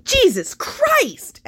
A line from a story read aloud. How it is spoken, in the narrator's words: shrieks